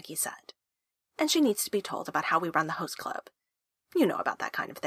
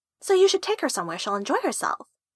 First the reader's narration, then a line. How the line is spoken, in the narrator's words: Honey said cheerfully